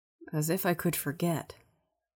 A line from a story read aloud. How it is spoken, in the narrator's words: Yuri mumbles